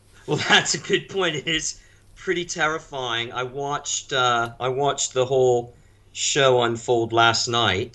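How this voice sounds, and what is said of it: North American accent. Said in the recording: “as you can tell by my accent ... broadly North American ... I grew up in the U.S.”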